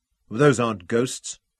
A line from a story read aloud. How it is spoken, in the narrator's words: Robin said flatly